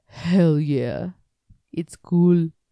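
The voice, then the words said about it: Imitates another person's voice. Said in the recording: “Was that your impression of Arnold?”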